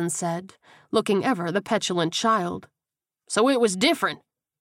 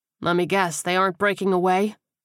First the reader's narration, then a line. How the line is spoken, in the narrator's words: Kersey sighed